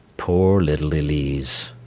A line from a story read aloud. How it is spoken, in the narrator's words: he murmured